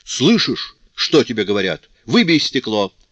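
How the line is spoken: Father shouting again. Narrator (Russian): снова крикнул отец

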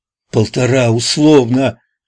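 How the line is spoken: Shouted. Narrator (Russian): крикнула она

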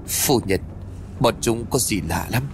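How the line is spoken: Soft question. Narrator (Vietnamese): Cao Viên lúc này liền khẽ nói

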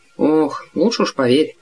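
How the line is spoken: Muttering. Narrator (Russian): пробормотал мистер Д

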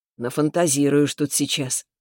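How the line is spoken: Snorting. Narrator (Russian): хмыкнул Субботкин

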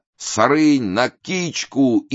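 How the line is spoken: Crowd shouting. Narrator (Russian): Голытьба кричала

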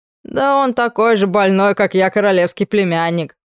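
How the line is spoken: Mustached man's snort. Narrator (Russian): хмыкнул усатый

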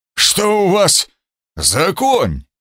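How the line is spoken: Hoarse rasp. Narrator (Russian): прохрипел

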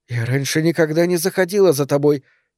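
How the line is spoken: Quiet. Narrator (Russian): тихо заметила Сара

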